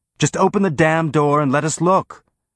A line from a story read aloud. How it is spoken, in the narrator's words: yelled the woman in a tone that let Holden know this was something she was repeating again and again